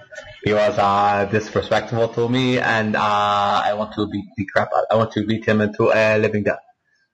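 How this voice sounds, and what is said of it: Generic foreign accent. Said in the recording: “That was my generic foreigner accent.”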